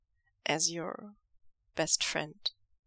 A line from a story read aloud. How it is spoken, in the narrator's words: Lanjan asks quietly